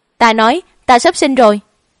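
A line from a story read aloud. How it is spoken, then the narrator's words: Pained loud shout. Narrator (Vietnamese): Trán nàng bắt đầu lấm tấm mồ hôi, hai tay ôm bụng, cao mày thật chặt, quát lớn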